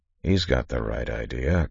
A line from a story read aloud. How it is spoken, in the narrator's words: Kanawha muttered